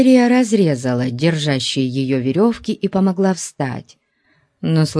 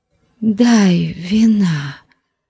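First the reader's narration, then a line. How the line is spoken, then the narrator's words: Pleading voice. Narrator (Russian): попросила умоляющим голосом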